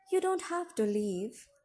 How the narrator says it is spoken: I said wistfully

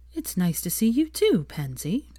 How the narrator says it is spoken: she said coolly

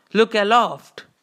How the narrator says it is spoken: cried Starbuck

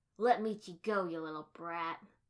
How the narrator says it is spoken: one of Minaka's friends snarled

